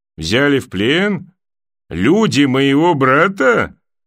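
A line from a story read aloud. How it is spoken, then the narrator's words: Growling laugh. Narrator (Russian): Клиган засмеялся, будто зарычал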